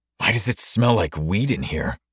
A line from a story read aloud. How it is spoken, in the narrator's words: I hissed to my cousin Liam